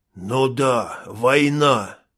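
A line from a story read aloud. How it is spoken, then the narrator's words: Hiss. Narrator (Russian): прошипел Трэвис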